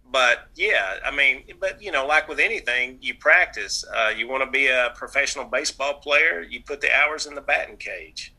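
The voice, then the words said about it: Nasal Southern US twang. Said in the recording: “My nasal's twang. I'm from the South ... and my dropping of the G's.”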